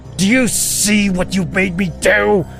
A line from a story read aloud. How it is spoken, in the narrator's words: Kevin screamed at me